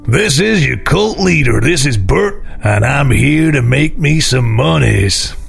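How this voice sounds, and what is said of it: American 1970s cult leader voice. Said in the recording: “Don't sound like me at all. I have to do an American 70s cult leader accent.”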